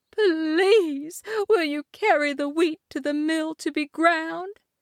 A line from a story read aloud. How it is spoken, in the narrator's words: Worn out, begged